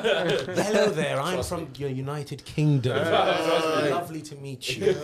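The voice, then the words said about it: Put-on posh British accent. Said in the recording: “we talk posh”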